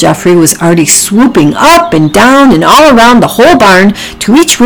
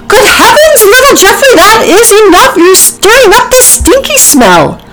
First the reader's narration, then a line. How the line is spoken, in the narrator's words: Ginger shouted